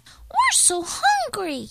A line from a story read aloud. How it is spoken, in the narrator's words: chirped the chickadees